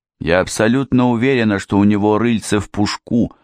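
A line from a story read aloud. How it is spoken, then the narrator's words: Grim statement. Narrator (Russian): мрачно произнесла Эрминтруда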